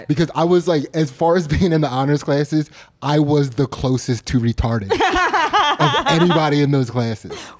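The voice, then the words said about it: Noticeable accent on the word classes. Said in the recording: “Your accent comes out when you say classes.”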